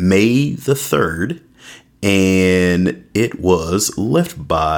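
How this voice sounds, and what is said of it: Usual voice. Nothing is said of it.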